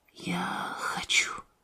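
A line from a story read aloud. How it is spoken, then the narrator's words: Mother whispering. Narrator (Russian): Мама прошептала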